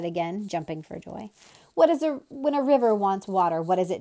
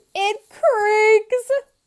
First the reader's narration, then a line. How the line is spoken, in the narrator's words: bellowed, collapsed into a fit of uncontrolled laughter